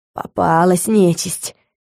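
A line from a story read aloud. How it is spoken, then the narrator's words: Hoarse wheeze. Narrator (Russian): просипел Саймон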